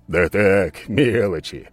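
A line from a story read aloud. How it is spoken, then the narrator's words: Snorting. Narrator (Russian): хмыкнул скала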